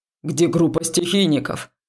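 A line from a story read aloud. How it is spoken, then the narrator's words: Shouting nearby. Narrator (Russian): прокричал рядом проректор Судоу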